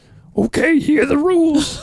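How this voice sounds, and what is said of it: Muppet-like imitation of another person. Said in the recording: “your Kathy Lewis impression. ... No, but it's Muppety. ... Yeah, very Muppety.”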